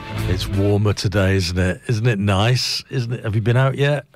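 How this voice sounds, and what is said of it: Strained, failing voice. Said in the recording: “I think my voice is going.”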